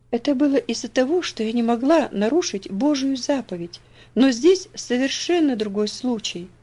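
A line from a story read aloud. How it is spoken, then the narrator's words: Gentle reply. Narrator (Russian): мягко ответила Элси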